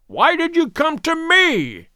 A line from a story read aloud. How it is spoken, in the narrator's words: he cried